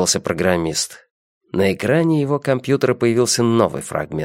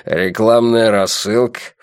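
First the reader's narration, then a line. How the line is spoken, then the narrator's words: Snorted. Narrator (Russian): фыркнул Эриксон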